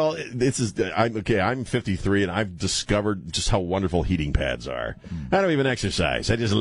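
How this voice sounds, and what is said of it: Usual voice. Nothing is said of it.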